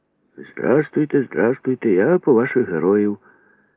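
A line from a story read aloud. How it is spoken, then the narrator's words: Cheerful. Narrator (Ukrainian): весело сказав асистент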